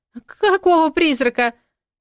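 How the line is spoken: Shrieking. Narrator (Russian): взвизгнула блондинка

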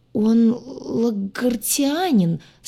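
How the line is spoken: Dwarf's strained stammer. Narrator (Russian): слегка заикаясь, выдавил двар

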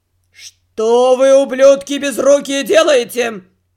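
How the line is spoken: Drunken growling head gardener. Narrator (Russian): зарычал все еще пьяным голосом главный садовник

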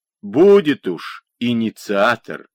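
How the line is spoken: Mocking drawl. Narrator (Russian): насмешливо протянул Дмитро

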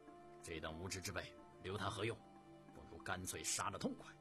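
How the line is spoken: Very angry. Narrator (Chinese): 郭英非常的愤怒，说道

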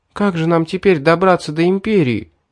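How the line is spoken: Sobbing girl. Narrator (Russian): всхлипнула девушка

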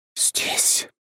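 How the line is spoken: Ghostly whisper. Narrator (Russian): прошептала призрак

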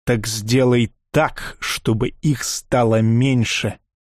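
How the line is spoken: Calmer but still menacing. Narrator (Russian): Чуть спокойнее, но все еще грозно сказал барон

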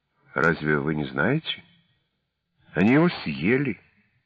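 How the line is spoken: Calm reply. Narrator (Russian): Я спокойно ответил

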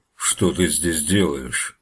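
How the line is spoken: Menacing bear. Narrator (Russian): грозно спросил медведь

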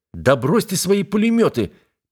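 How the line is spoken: Sharp shout. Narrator (Russian): прикрикнул на меня командор

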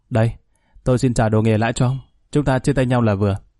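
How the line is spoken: Smiling. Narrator (Vietnamese): Khanh mỉm cười nói

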